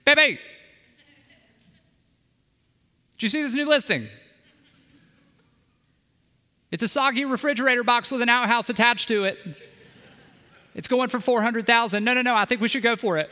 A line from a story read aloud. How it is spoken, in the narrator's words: one of us will shout from the other room